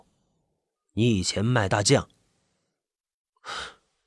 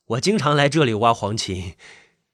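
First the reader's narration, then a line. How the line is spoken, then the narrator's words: Smiling. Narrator (Chinese): 吴安平笑了笑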